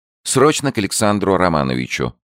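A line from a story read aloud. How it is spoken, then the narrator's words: Plain. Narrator (Russian): сказала секретарша Белова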